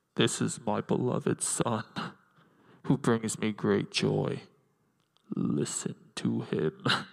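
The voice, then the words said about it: Darth Vader character voice. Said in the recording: “in my best Darth Vader voice”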